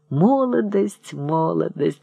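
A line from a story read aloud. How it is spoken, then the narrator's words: Muttering. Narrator (Russian): бормотал он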